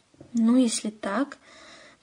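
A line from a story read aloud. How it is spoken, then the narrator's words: Unsure mumble. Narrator (Russian): промямлил Остап, не ожидая такой прыти от своего, как ему казалось, преданного служаки, он никак не мог вернуть уверенный тон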